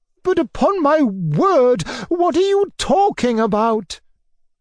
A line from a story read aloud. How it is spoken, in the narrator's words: cried, almost with horror